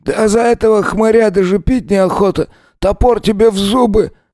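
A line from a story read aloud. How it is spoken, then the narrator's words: Hoarse rasp. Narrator (Russian): прохрипел напильник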